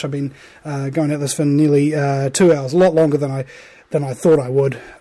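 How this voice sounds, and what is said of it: Very hoarse, worn-out voice. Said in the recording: “Voice is very hoarse. I'm very sweaty. Voice is very hoarse. It's like dead”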